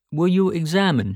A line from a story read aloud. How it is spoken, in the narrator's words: he asked